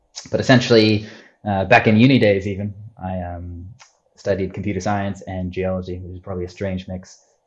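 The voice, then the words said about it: Mixed Australian-American accent. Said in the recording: “weird accent. Where's this guy from? It's actually originally born in Australia, grew up in America”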